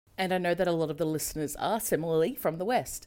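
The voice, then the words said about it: Australian accent. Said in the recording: “my terrible Australian accent”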